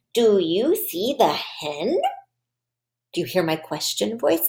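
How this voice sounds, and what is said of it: Exaggerated questioning intonation. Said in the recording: “in a question voice”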